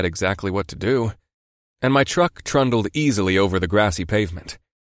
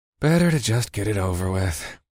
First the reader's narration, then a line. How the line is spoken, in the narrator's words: I sighed